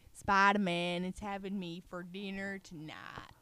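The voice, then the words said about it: Bad put-on Southern accent. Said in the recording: “That's Southern. ... Stop, that's so bad.”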